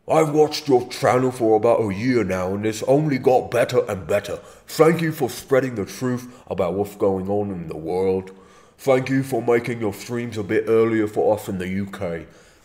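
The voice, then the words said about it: Cartoonish slight English accent, numb tongue. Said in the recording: “the hench voice ... like a big, like the tongue doesn't really work very well. It's like a slight English accent with like a little, like a exaggerated tongue numbness ... I'm sure that doesn't sound exactly like Hench. It's like a cartoon impression. It's cartoonish.”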